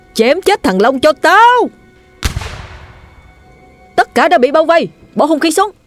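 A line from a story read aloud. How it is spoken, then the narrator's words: Roared. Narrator (Vietnamese): Hắn gầm lên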